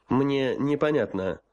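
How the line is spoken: Dry. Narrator (Russian): сухо сказал генерал-майор

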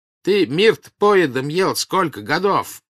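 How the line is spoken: Angry shouting. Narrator (Russian): кричал на него Карп

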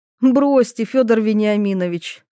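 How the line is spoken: Chuckling. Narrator (Russian): хохотнула Ивета

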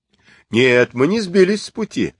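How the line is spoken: Laughing. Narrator (Russian): смеясь ответил Сунь-Укун

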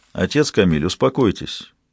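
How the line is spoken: Even, restrained voice. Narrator (Russian): произнес Ги ровным голосом, стараясь подавить поток желчи, поднимавшийся по пищеводу

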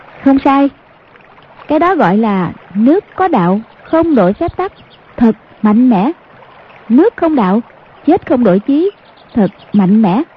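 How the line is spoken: Smiling. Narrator (Vietnamese): Hoàng Dung mỉm cười nói

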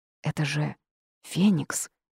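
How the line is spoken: Awed whisper. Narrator (Russian): прошептала Вита

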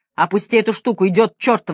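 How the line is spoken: Fierce bark. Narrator (Russian): свирепо рявкнул Мэлори

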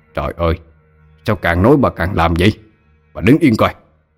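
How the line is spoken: Irritated snap. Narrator (Vietnamese): Ông ta gắt lên

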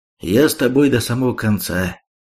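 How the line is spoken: Calm reply. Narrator (Russian): спокойно ответил

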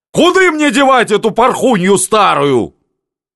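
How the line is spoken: Shouting question at everyone. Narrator (Russian): Один здоровенный капрал кричал направо и налево, у всех спрашивая

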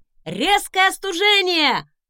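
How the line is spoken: Shouted. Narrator (Russian): крикнула

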